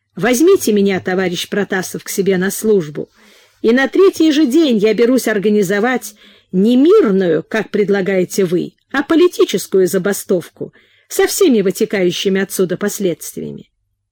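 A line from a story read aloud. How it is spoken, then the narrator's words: Coughing young man exclaiming. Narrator (Russian): Юноша с блестящими глазами, Краев, покашливая, воскликнул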